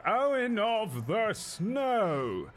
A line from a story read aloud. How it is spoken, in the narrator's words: speaks into this scepter, and you can hear his voice as he announces